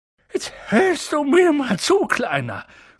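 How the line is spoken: Snapping gruffly. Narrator (German): schnauzte er

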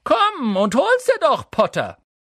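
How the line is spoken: Calling down from treetop. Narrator (German): Von den obersten Ästen einer Eiche herab rief er

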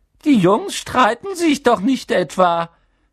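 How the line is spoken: Squeak. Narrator (German): quiekte er

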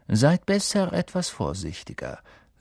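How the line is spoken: Plain. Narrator (German): sagte Snape

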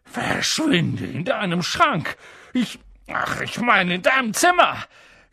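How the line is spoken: Gasped. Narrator (German): japste er Harry zu

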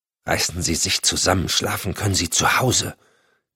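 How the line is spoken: Hissing. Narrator (German): zischte sie

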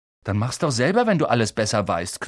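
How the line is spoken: Growled. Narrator (German): knurrte Ron

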